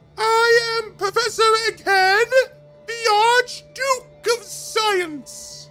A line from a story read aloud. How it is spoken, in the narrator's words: the creature screamed